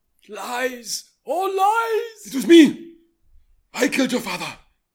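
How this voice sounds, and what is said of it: Put-on Wakandan accent. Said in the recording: “I was trying to get through this whole thing without doing a fucking Wakandan accent.”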